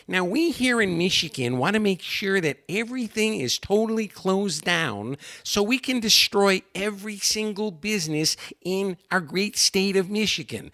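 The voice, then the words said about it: Put-on hard Michigan accent. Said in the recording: “She's got that hard Michigan accent.”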